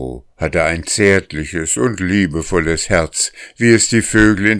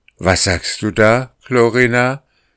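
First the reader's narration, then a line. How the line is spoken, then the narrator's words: Horrified shout. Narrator (German): rief Jarro und fuhr ganz entsetzt in die Höhe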